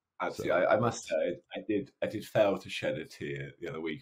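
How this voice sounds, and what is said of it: Posh English accent. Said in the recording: “your posh accent ... any Englishman who's listening to this”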